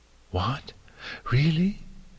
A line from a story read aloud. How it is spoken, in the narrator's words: Dawn gasped